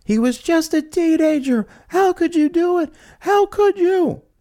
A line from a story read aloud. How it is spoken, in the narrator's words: She screamed